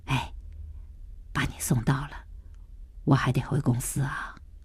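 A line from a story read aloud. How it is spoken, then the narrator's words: Gentle, soft. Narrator (Chinese): 何建国柔声的说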